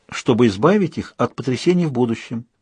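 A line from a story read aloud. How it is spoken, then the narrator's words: Calm. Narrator (Russian): спокойным тоном ответила Сьюзен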